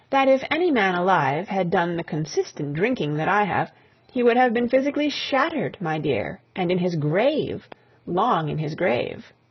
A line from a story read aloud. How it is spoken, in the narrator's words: her voice sang on a confidential note